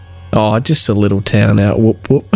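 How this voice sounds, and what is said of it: Put-on Australian accent. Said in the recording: “I love the Australian accent.”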